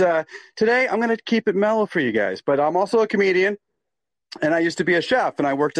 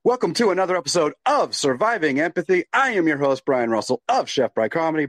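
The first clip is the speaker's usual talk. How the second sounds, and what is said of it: Radio announcer voice. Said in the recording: “I sometimes break into my radio voice”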